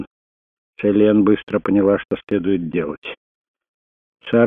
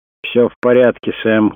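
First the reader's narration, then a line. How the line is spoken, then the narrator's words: Shouted. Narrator (Russian): крикнул Крейг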